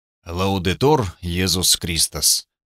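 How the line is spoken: Muttering. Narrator (Russian): пробормотал Гунтер

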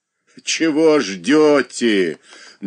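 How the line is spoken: Mocking. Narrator (Russian): насмешливо проговорила она

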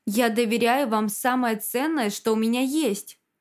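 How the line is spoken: Plain. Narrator (Russian): сказал Захар

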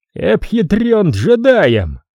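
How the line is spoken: Laughing loudly. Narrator (Russian): прохохотал он

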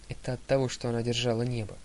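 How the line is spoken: Muttered. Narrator (Russian): пробормотала Талия

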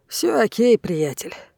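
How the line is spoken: Grumbling. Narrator (Russian): проворчал

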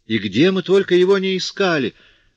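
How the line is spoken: Exclaimed. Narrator (Russian): воскликнула она

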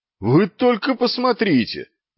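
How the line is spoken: Yell. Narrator (Russian): заорал

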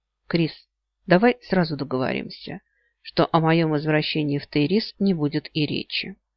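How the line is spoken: Quiet statement. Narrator (Russian): Нил негромко произнес

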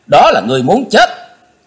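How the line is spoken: Shout filling the hall. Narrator (Vietnamese): Chí Tôn quát gian cả tràng

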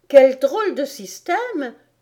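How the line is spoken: Exclaimed. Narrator (French): s'écria Alice

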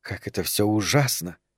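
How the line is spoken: Quiet speech. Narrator (Russian): тихо сказала Регина Герберту

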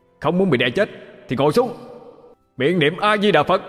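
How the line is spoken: Shouting with full force. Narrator (Vietnamese): Vụ vận lực mà hét lớn

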